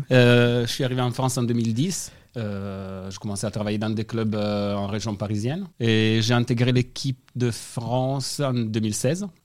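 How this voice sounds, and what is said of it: Slight Italian accent in French. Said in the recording (French): “je suis d'origine italienne... Ça s'entend, hein... l'accent, c'est pas celui de Toulouse... un petit peu, un petit accent. Un petit peu d'accent”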